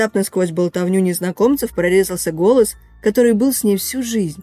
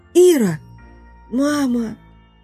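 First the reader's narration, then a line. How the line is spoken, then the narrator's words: Hoarse girl's rasp. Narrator (Russian): Прохрипела девочка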